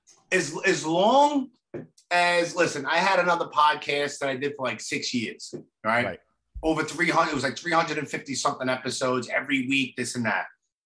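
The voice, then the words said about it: Brooklyn accent. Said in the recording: “I might be like have like a knucklehead Brooklyn accent”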